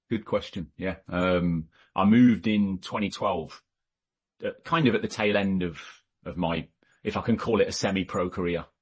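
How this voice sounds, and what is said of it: English accent, not Californian. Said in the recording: “your California accent is a little off”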